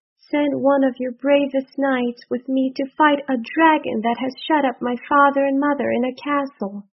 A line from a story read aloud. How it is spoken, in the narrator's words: she cried